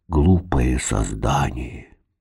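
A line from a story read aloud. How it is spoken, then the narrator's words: Grumbling under breath. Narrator (Russian): проворчал себе под нос Вошабль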